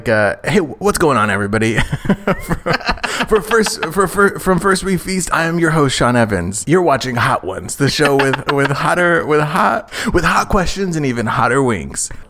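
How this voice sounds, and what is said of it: Impression of Sean Evans. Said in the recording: “That man would be an incredible Snatch Game impression ... He's always like”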